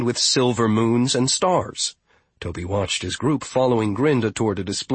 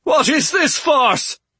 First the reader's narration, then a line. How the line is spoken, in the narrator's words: he cried